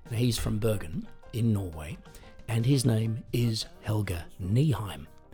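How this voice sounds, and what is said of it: Australian accent. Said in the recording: “I am originally from Australia, as you might be able to tell from the accent.”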